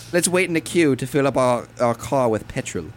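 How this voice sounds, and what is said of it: Good put-on British accent. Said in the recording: “That was actually really good. That was actually a really good impression.”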